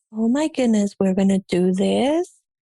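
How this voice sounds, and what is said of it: Soft, gentle, shy voice. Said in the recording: “I talk very soft and I talk very like nice, not more aggressive”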